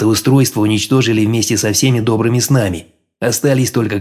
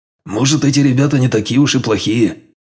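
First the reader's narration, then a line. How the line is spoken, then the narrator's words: Grumbling. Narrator (Russian): проворчал Броган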